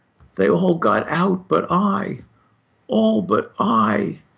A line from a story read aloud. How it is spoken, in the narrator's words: He lay there whispering